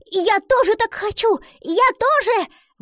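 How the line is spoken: Exclaimed. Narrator (Russian): воскликнула она

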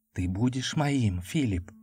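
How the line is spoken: Whisper. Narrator (Russian): шептала она

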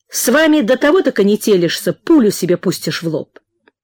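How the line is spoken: Irritated speech. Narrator (Russian): раздраженно сказал Прохор и добавил про себя

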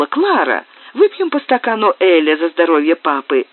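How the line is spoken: Exclamation. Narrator (Russian): она воскликнула

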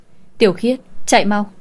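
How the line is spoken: Loud shout. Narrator (Vietnamese): Anh ta hét to

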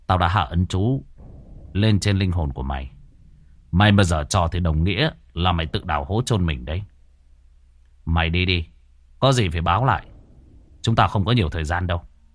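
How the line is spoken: Cold. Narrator (Vietnamese): anh Cường chỉ lạnh lùng nói

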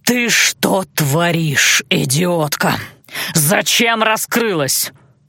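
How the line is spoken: Cold furious hiss. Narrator (Russian): С холодной яростью прошипел лорд Баллар

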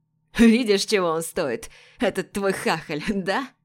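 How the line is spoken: Laughing. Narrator (Russian): все еще смеясь

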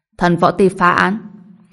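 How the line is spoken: Stern voice. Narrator (Vietnamese): nghiêm giọng nói

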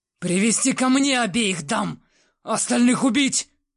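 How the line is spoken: Roared. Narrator (Russian): Взревел он

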